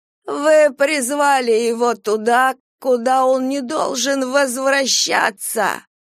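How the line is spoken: Dead man's thin shrill voice. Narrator (Russian): проговорил мертвец тоненьким визгливым голосом

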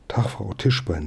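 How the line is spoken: Plain. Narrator (German): sagte

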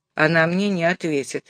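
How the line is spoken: Gloomy. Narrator (Russian): мрачно заявил Розовски

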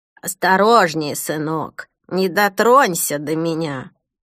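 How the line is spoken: Hoarse voice from darkness. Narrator (Russian): Хриплый голос, раздавшийся из темноты

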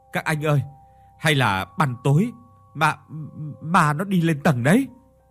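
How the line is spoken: Stammering. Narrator (Vietnamese): Thắng lắp bắp

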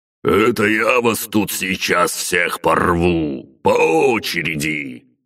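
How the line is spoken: Roaring. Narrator (Russian): проревел Батуми

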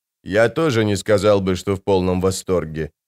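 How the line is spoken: Plain. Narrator (Russian): ответил быстрый Бен

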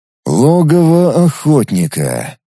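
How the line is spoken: Drawl. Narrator (Russian): протянул я

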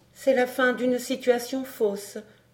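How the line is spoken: Murmured. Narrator (French): murmura-t-elle

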